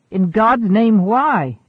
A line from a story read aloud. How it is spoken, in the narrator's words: exclaimed Patulcius